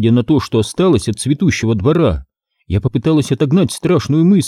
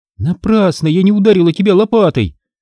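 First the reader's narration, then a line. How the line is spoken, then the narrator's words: Shout. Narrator (Russian): выкрикнула я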